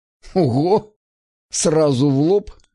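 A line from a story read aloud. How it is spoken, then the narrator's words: Laughing. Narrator (Russian): засмеялся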